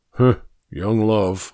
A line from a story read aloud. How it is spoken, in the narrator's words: I grumbled